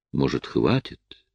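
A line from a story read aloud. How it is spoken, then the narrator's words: Quiet, soft. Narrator (Russian): тихо произнесла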